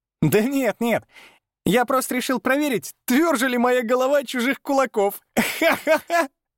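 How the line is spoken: Laughing. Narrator (Russian): рассмеялся в ответ

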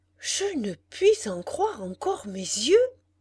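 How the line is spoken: Exclamation. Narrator (French): s'écria-t-il

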